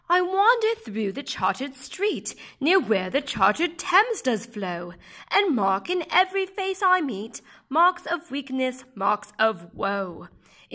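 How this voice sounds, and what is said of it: Bad imitation British accent. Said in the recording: “Poems in Terrible Accents ... Apologies in advance for my terrible British accent”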